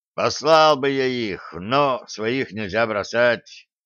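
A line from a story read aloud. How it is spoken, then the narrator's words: Regretful sigh. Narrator (Russian): с сожалением вздохнул Шреддер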